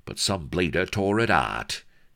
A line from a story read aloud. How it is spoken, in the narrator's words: he added bitterly